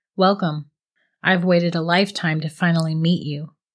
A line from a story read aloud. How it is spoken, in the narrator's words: the voice said